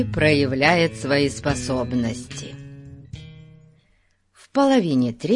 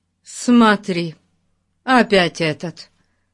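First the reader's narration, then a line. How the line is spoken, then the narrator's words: Exclaimed. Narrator (Russian): воскликнул Пип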